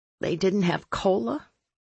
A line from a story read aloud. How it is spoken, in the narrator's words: I croaked